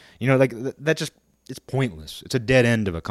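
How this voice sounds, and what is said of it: Usual voice. Nothing is said of it.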